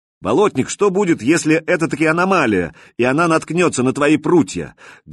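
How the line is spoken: Loud question. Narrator (Russian): громко, чтобы все слышали, спросил

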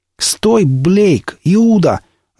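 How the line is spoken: Yelled. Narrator (Russian): заорал он через мгновение

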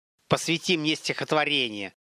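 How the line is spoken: Level-voiced snap. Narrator (Russian): Не повышая тона, огрызнулся Олег

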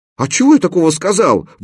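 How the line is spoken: Wailing. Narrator (Russian): взвыл он

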